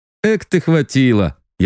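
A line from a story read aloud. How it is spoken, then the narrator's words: Laughing. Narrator (Russian): я рассмеялся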